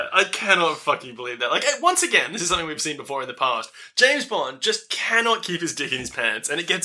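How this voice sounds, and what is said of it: Usual voice. Nothing is said of it.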